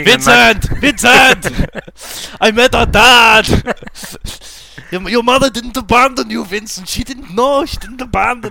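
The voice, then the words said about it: Thick Austrian accent impression. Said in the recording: “in a thick Austrian accent”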